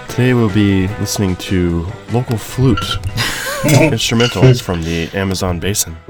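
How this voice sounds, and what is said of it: Calm public-radio announcer voice. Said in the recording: “You usually have a good NPR voice, actually.”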